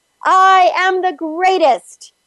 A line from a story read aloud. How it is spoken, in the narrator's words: pound your chest, and yell